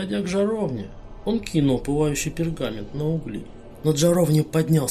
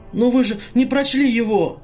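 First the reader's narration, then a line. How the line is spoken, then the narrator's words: Desperate exclamation, cut short. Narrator (Russian): в отчаянии воскликнул Кадгар и тут же осекся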